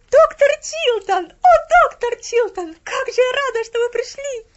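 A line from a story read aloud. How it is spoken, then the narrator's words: Ecstatic exclamation. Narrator (Russian): воскликнула Поллианна, и в голосе ее звучал такой восторг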